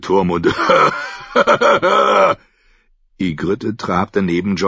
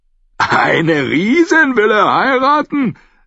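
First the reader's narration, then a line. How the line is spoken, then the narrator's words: Laughing. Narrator (German): Langspeer Rüg lachte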